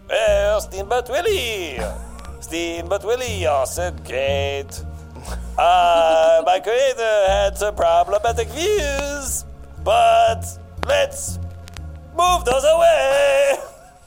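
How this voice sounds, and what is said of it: Cartoon mouse voice, French accent. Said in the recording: “Mickey Mouse theme in a French accent ... you nailed it”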